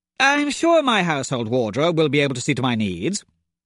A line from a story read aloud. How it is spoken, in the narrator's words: said, perhaps a trifle sharply